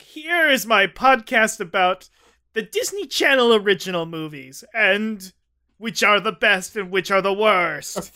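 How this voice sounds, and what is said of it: Imitates another person's voice. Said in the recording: “that's what you think he sounds like? ... That's my best impression. I didn't try that hard.”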